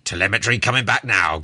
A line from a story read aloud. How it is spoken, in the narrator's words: growled the captain, in a preoccupied kind of way